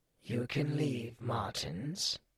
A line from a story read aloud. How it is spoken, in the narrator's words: wheezed